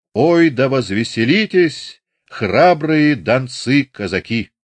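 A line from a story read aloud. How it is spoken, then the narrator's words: Sing-song cry. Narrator (Russian): его напевным вскриком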